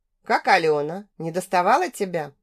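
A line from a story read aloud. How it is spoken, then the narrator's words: Soft laugh. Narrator (Russian): Я тихо засмеялась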